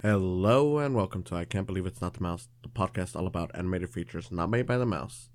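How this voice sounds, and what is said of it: Slightly weird, sick-sounding voice. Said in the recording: “my voice sounds a little weird, ... I've got a cold, ... the flu maybe”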